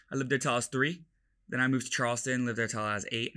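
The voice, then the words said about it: Mostly American accent. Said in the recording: “that's why I have an American accent, like, more or less”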